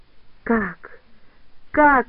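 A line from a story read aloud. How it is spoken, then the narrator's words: Moaning. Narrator (Russian): застонал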